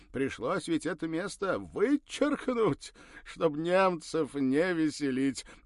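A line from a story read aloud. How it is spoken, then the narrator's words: Ringing laughter. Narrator (Russian): заливисто рассмеялся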